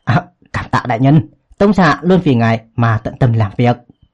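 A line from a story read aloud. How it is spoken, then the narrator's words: Relieved, joyful. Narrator (Vietnamese): Tống Thanh Tuyền khẽ thở phào một hơi mừng rỡ nói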